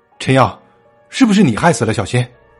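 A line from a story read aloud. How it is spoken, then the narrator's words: Angry shout. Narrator (Chinese): 李小乐愤怒的大叫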